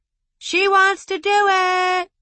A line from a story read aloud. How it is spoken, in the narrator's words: Trent yelled to the bartender